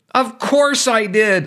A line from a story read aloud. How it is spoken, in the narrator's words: blurted